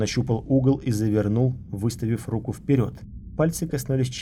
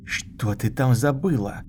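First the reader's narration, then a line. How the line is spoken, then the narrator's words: Hiss. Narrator (Russian): прошипел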